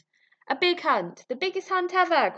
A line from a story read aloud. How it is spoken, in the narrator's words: cried the drunken hunters